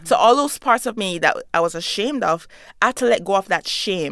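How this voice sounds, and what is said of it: Jamaican accent. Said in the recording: “my identity as a Jamaican woman, an immigrant ... I have an accent.”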